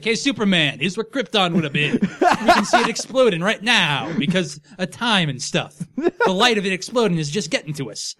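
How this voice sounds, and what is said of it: Neil deGrasse Tyson impression. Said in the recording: “That's what Neil deGrasse Tyson sounds like, right?... I don't know why I went into that voice for him... that's my Neil deGrasse Tyson voice... That sounds nothing like it... Drop into the weird accent”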